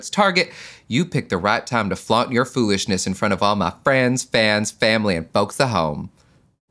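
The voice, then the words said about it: Imitates another person's voice, poorly. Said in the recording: “That was a terrible Alyssa Edwards impression ... It was a terrible Alyssa Edwards, but she's not that easy to impersonate.”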